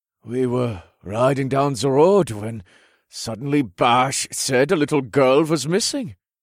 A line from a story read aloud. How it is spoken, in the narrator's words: Jorgen informed her in an odd tone